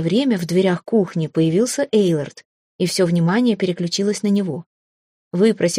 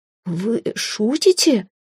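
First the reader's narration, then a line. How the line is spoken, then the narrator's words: Strained, after clearing throat. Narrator (Russian): Прокашлившись, выдавила она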